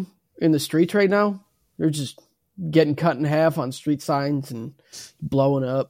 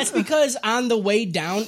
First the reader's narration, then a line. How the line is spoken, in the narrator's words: Itadori yelled